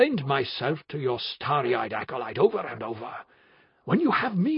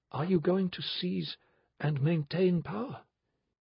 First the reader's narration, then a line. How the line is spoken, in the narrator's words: asked Benedict gently